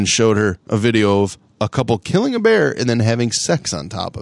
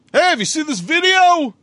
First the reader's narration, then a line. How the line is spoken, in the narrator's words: White once yelled out